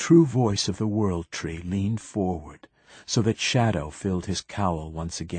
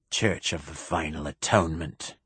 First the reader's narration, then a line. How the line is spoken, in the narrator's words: the bishop said in a bass growl